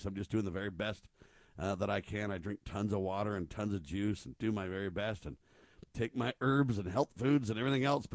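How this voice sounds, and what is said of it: Rough, sick-sounding voice. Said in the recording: “sorry about my voice. ... it's kind of rough”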